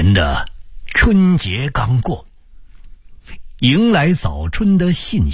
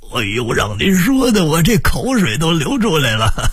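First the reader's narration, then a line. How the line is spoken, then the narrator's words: Laughing hard. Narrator (Chinese): 逗得张知府笑着捂着肚子说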